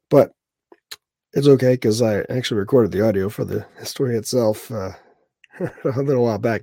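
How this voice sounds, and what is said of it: Congested, cracking voice. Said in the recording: “You could probably hear in my voice part of the reason I've been doing the freaking head cold thing all week. ... Post-nasal drip and coughing like a jerk, and of course voice is cracking ... My voice is cracking all the time ... this weird voice”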